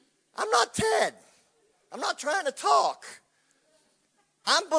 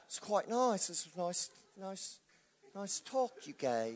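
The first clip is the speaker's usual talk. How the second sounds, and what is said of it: Put-on Australian-sounding accent. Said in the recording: “You like my Australian accent? ... You mix Texan and English and you get Australian.”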